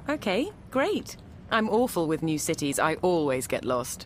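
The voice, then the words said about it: British accent. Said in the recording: “Oh, I love your British accent. It's so sophisticated.”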